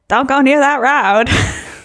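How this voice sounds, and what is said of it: Over-the-top accent imitating another person. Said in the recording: “even his accent is so over the top ... That's my Fred Gwynn impression. ... It was almost Forrest Gumpy.”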